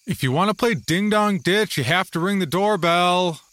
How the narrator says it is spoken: I called out, careful to keep from bothering others in their quiet homes

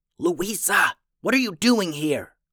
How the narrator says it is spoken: asked in a whisper yell

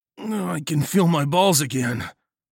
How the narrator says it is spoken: groaned

